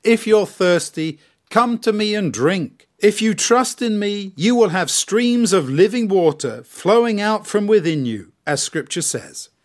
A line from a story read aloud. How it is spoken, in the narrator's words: shouted out in a loud voice